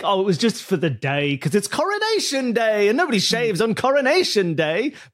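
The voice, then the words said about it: Put-on Bavarian accent. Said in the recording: “Do you like my Bavarian accent?”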